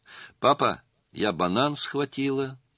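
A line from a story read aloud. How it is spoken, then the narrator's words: Calm. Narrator (Russian): спокойно сообщила она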